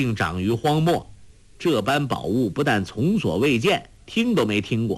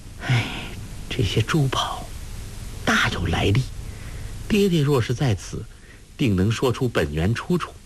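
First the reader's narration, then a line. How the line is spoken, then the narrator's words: Sighing. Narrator (Chinese): 叹道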